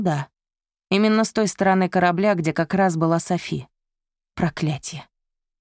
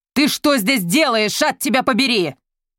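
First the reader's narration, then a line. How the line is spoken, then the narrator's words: Flustered, then yelling. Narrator (Russian): Софи растерявшись на мгновение, но тут же заорала в ответ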